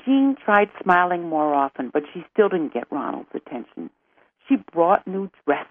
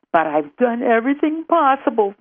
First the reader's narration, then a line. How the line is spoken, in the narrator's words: Jean wailed